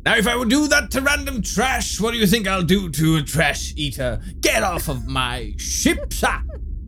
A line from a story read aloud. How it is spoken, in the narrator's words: Trying to regain face, Herodotus shouts